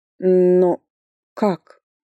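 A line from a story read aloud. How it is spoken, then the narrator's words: Stammering in amazement. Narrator (Russian): спросила уже я, заикаясь от изумления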